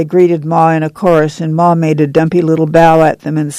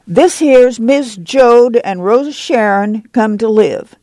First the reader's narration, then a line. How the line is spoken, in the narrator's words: Jessie said loudly